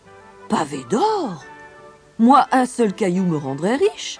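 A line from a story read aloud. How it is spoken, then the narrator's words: Exclaimed. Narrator (French): s'exclama Henri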